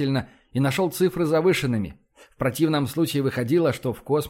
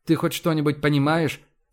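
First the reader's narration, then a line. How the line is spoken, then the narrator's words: Plain. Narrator (Russian): спросил он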